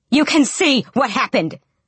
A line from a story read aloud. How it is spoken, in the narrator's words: Raylene snapped